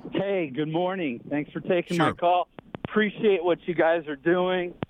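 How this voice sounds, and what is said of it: Out of breath, breathy speech. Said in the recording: “out of breath, ran back to my car”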